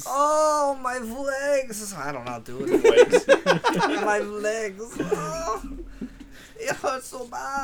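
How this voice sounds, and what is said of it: Put-on German accent. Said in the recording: “You say my leg in a German accent?”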